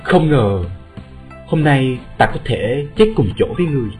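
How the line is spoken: Soft. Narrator (Vietnamese): Lục Tuyết Kỳ khẽ nói

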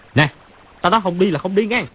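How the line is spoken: Loud shout. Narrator (Vietnamese): Chu Bá Thông dung quyền quát to

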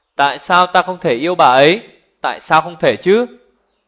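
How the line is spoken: Raised voice. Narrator (Vietnamese): Cung Nam Yến cao giọng

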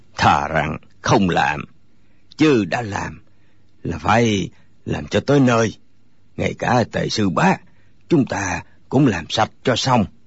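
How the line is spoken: Hoarse voice. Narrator (Vietnamese): Lại một người nữa cất giọng khàn khàn

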